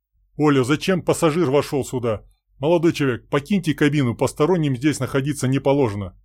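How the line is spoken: Stern voice. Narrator (Russian): строгим голосом произнес Олег

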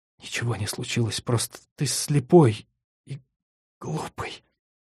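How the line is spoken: Hurt mutter. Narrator (Russian): она обиженно пробормотала

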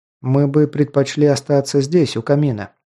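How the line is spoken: Plain. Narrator (Russian): сказал я

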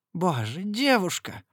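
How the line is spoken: Groan. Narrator (Russian): простонал он

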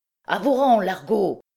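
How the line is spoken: Shouted. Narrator (French): cria-t-il

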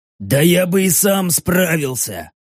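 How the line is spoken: Wheezing. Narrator (Russian): просипел почти червь

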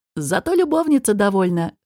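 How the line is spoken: Snort. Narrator (Russian): хмыкнул Алвар Гор

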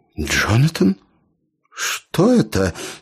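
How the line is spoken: Trembling question. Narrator (Russian): спросила начальница дрогнувшим голосом

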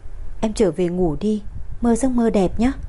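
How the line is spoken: Soft laugh. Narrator (Vietnamese): Bùi Dục khẽ cười

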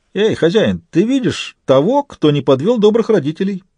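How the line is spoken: Giggling. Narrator (Russian): хихикнул Фист

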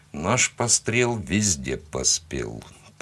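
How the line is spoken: Muttered. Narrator (Russian): пробормотал я

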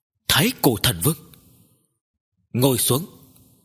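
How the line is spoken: Hoarse voice. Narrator (Vietnamese): thanh âm khàn khàn nói

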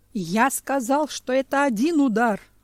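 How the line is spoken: Yelling. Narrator (Russian): орал медведь

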